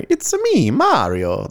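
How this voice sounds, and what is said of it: Mario character voice impression. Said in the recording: “That was my impression, which I quite frankly think was pretty good.”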